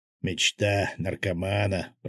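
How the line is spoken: Muttering. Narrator (Russian): пробормотал Свят

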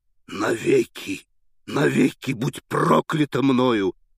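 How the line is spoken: Breathless hoarse rasp. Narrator (Russian): хрипел он, задыхаясь

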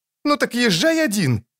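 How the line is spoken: Furious shout. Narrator (Russian): крикнула разъяренная не на шутку Мильва

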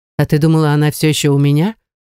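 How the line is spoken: Smirking snort. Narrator (Russian): хмыкнул он

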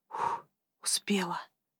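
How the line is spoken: Whisper. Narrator (Russian): сообщила она мне шепотом

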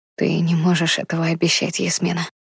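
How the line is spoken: Gentle, smiling. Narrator (Russian): мягко улыбнулся мне Сови

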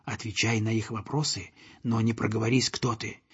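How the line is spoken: Goose whispering. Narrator (Russian): Мортон гусак шепнуть мальчику

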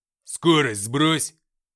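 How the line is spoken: Barking shout. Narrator (Russian): рявкнул Артем

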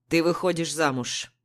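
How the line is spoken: Father's stern voice. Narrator (Russian): строго говорит папа

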